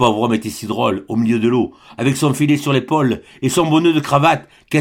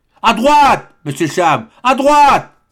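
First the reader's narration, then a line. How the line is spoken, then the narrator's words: Shouted. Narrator (French): cria Hector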